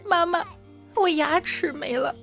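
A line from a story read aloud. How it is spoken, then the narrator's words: Crying. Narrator (Chinese): 他哭着说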